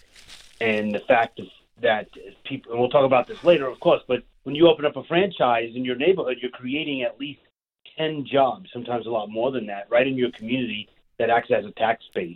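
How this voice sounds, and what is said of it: New York Long Island accent. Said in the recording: “I am born and raised in Brooklyn, New York. I live on Long Island now, and you can hear that in my voice.”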